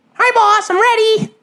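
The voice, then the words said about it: Put-on high-pitched voice. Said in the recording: “talk in like a high voice ... in that voice”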